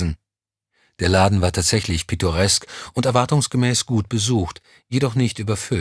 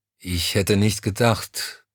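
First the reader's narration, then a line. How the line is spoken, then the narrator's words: Hesitant. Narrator (German): fuhr zögernd fort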